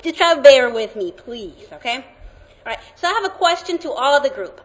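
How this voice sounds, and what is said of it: Latin American Spanish accent. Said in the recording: “I have a Latin accent”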